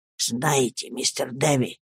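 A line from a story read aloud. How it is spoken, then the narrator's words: Sad old man's whisper. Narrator (Russian): зашептал с печальным видом старик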